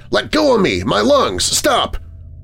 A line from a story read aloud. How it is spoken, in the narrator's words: He gasped convulsively, as if his ribs were crushing the breath from him